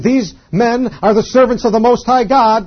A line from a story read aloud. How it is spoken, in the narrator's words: this girl with the spirit, cried, saying